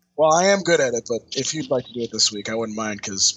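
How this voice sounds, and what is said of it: Voice sounds rough and off. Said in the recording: “my voice is terrible ... You do sound a little off.”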